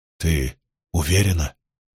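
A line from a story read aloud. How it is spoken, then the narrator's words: Quiet question. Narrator (Russian): тихо спросил Спартак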